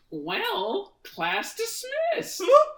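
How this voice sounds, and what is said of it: Monokuma impersonation. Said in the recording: “let's do our Monokuma impersonations”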